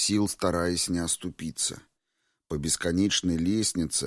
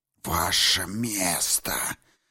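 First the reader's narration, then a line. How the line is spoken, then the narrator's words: Hissed, goddess. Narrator (Russian): прошипела богиня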